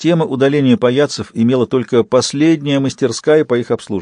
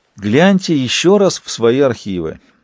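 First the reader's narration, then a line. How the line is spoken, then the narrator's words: Sad smiling tone. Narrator (Russian): грустно улыбнулся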